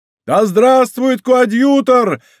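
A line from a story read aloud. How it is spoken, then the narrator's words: Crowd shouting. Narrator (Russian): закричала толпа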